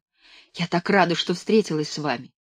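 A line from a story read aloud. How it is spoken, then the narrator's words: Whisper. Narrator (Russian): шепнула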